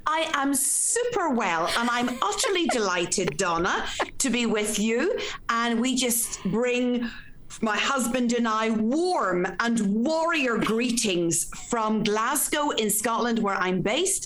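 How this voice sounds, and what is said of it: Irish accent. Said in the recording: “this is an Irish accent”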